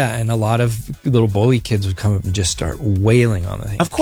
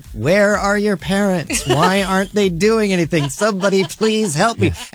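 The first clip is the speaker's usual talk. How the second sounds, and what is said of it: Nerdy character voice. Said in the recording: “in the trash can voice ... a nerd voice”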